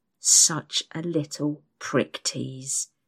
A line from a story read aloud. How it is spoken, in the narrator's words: he hisses into my ear